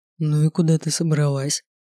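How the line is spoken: Sleepy mumble. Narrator (Russian): Сонно пробормотал Латеску

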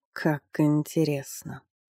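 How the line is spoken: Sorcerer's purr. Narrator (Russian): промурлыкал колдун

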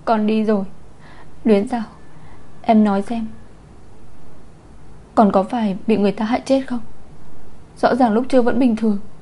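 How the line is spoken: Tearful sobbing. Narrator (Vietnamese): rưng rưng nức nở nói

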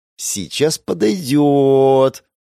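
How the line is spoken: Smug drawl. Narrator (Russian): протянула она с довольной мордой

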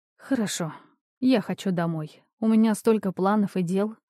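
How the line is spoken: Sighed. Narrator (Russian): вздохнула я

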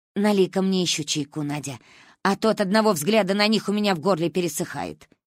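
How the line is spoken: Old woman grumbling. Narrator (Russian): пробурчала Ба

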